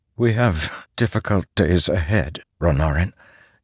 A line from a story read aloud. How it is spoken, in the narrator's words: Jasnah said, her voice strangely frail